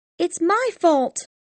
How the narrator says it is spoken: she cried

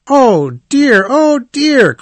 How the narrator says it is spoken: cried the rat

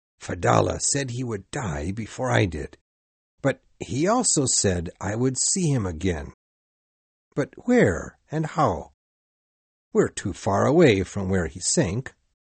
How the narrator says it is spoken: He whispered to himself

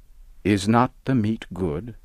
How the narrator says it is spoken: Kish answered

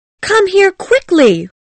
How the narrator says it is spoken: cried Daisy at the window

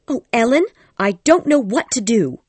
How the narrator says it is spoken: she cried

